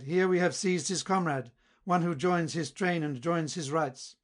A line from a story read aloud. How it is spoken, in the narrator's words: they cried